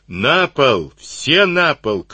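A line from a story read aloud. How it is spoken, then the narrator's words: Shout. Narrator (Russian): крикнул Сивицкий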